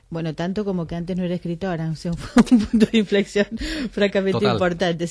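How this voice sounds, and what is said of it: Argentine Spanish accent. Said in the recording (Spanish): “nació en Buenos Aires, le notamos ese acento que no ha perdido después de muchos años aquí”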